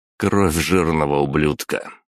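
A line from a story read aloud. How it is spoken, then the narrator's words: Flat, even tone. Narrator (Russian): ровным тоном пояснил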